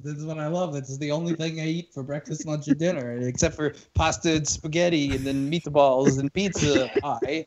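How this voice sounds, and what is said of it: Put-on Italian accent. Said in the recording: “you do your Italian impression.”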